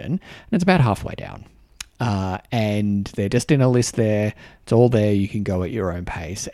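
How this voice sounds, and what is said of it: Australian accent. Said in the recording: “my, you know, Australian accent”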